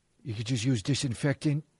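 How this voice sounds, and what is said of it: Imitates another person's voice. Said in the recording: “Worst Trump impression of all time.”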